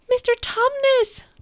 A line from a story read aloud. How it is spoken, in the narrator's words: cried Lucy